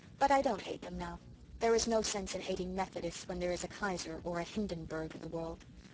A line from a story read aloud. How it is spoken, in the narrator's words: said Miss Cornelia calmly